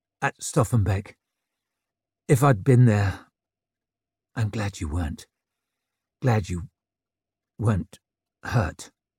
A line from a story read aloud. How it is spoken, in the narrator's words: murmured Juran